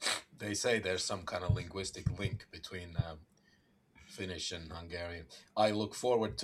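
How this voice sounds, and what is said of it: Usual voice. Nothing is said of it.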